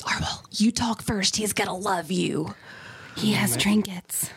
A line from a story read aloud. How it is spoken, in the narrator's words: Callista turns to Arwell and whispers